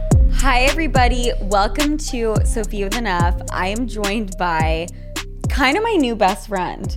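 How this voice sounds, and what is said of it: Presenter voice, different inflection. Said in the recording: “Like your presentation voice ... you had a much different inflection.”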